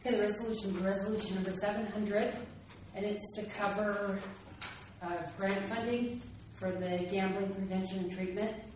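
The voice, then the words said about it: Out of breath, breathless speech. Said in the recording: “out of breath”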